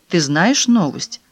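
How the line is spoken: Plain question. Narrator (Russian): спросил Филипп

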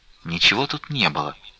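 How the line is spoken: Muffled whisper. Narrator (Russian): глухим шепотом сказала Настя

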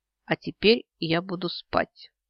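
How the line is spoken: Gloomy announcement. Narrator (Russian): мрачно сообщает Алтангирел

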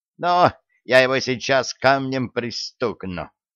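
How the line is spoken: Shrill squeaky scream, smallest one. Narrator (Russian): Противным писклявым голосом завопил самый маленький из них

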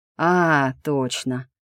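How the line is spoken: Drawled. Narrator (Russian): Хант протянул

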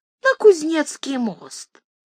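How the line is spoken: Thin-voiced lady's whisper. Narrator (Russian): барыня шепнула таким тоненьким голоском

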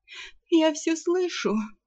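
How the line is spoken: Sleepy mutter. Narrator (Russian): сонно пробормотала наемница, не поднимая головы

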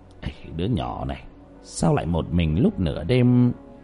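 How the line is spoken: Muttered. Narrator (Vietnamese): lẩm bẩm trong miệng

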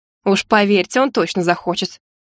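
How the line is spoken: Snort. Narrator (Russian): фыркнула я

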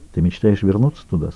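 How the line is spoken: Very quiet question. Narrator (Russian): спросил Джек так тихо, что его слова тут же растаяли на ветру

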